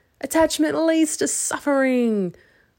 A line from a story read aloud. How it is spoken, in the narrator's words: I shouted